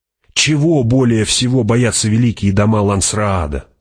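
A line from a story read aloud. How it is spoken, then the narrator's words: Plain. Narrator (Russian): спросил Пауль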